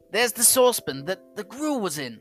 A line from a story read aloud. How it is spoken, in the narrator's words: cried Scrooge